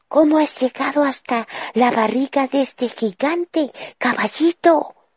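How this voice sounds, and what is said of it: Very quiet whisper. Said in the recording (Spanish): “—susurró Ana lo más bajo posible.”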